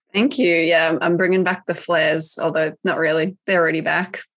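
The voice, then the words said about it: Slightly croaky voice. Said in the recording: “My voice is a bit croaky, still recovering from spicy cough, but I think I had a croaky voice anyway, so you probably won't even notice.”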